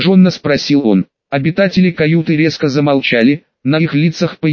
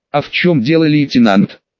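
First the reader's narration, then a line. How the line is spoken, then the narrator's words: Angry retort. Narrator (Russian): злобно отреагировал Фукс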